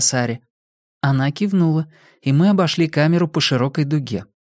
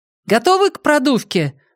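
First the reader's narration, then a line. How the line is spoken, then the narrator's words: Shout. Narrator (Russian): крикнула Сара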